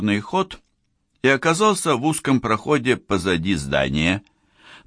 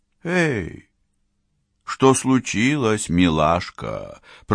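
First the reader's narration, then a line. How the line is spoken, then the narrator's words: Purring. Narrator (Russian): промурлыкал Калверт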